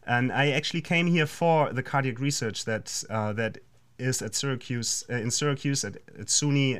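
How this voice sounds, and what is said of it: German accent. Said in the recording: “I know that people hear your accent... I'm from Germany. And I grew up in Hamburg.”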